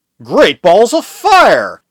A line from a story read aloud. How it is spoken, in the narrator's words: exclaimed